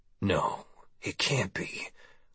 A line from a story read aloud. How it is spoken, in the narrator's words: mumbled